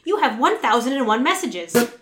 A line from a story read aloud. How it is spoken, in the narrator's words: screeched the mechanized voice of the auto response system